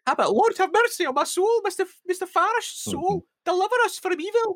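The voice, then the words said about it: Put-on young Scottish accent. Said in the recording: “what's a young Scottish person sound like? ... the Scottish accent ... Young Scottish, please ... Young Scottish whippersnapper”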